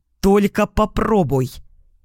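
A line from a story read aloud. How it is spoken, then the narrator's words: Barked sharply. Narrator (Russian): рявкнула я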